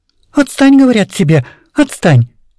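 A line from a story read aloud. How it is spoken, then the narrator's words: Angry. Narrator (Russian): сердилась Вера Ивановна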